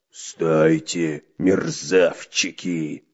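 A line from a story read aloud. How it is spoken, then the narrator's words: Pirate's roar. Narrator (Russian): взревел рыжебородый пират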